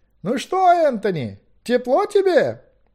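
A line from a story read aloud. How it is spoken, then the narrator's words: Mocking shout, cupped hands. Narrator (Russian): издевательски крикнул было Гвидион, сложив руки рупором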